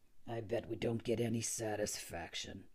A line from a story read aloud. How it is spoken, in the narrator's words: murmured the tourist